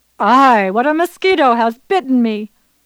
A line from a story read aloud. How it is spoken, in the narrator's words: At once he shouted